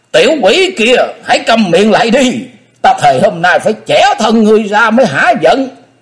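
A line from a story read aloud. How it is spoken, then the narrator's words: Old man's furious roar. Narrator (Vietnamese): Nhạc Thế Hùng ê a như vậy, lão nhân càng nói giận thét ghê hồn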